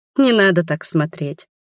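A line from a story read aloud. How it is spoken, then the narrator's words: Plain. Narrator (Russian): сказала я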